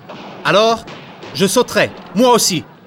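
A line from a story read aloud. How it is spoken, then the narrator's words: Shouting. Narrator (French): crie Marius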